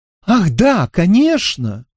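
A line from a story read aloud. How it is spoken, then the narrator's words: Joyful exclamation. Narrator (Russian): радостно вскричала хозяйка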